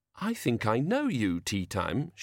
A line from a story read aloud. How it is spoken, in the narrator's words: she said, as sweetly as she could, for Banjo's sake